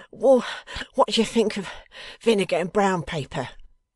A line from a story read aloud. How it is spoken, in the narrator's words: inquired the suffering Fledgeby, still rocking and moaning